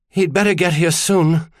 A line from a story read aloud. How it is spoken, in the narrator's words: said, between pants